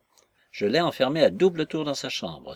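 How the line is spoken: Triumphant exclamation. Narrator (French): s'écria-t-il d'un air de triomphe

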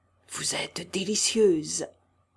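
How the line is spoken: Murmured. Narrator (French): murmura-t-il

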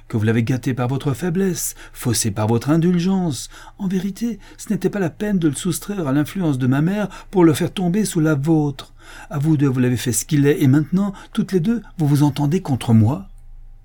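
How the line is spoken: Furious shout. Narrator (French): s'écria Richard avec fureur

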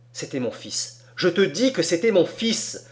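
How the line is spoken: Old woman exclaiming. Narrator (French): s'écria la vieille femme

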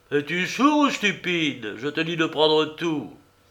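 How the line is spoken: Exclaimed. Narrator (French): Kouroglou leva sa massue sur lui et s'écria

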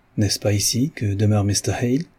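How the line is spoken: Clear sonorous gentle voice. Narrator (French): demanda-t-il d'une voix claire, sonore, mais qui ne manquait pourtant pas de douceur

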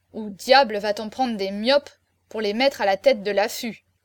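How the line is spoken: Grumbled. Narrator (French): grommela-t-il

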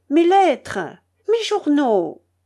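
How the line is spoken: Irritated exclamation. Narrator (French): s'écria-t-elle avec humeur

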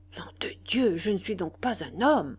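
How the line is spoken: Growled, holding back tears. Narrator (French): grogna-t-il en renfonçant ses larmes

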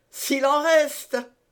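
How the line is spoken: Mocking grunt. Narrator (French): grogna la voix railleuse d'Athos

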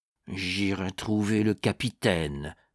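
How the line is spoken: Muttered through teeth. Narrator (French): murmura-t-il entre ses dents

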